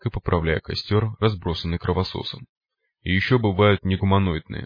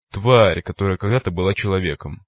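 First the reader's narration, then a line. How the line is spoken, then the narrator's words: Gloomy reply. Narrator (Russian): мрачно ответил копия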